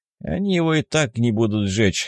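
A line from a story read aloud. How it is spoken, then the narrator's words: Snorting. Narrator (Russian): хмыкнул Семен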